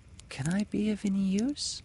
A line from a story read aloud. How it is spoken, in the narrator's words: something as light as a kiss, as if saying timidly